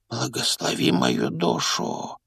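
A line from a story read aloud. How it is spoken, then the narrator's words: Old man whispering. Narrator (Russian): прошептал старый бармен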